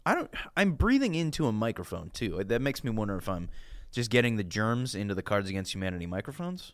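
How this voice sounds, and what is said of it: Congested, sick-sounding voice. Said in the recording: “This is not my normal speaking voice. I have a cold.”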